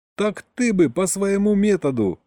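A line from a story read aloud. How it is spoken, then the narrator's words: Chuckled. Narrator (Russian): хохотнул Саня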